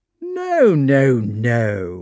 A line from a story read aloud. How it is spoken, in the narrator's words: warmly rejoined Prince Vasily